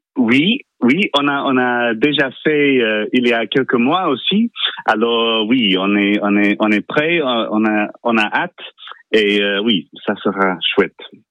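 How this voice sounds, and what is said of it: English accent speaking French. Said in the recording (French): “On reconnaît avec votre accent, vous êtes anglais”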